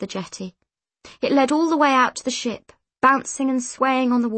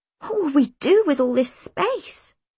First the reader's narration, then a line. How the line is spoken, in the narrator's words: She gasped